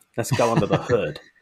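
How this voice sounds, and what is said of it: Poor put-on American accent. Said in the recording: “let's be American about it ... that's the last of my accents. My accents are terrible.”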